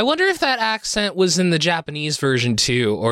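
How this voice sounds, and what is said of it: Usual voice. Nothing is said of it.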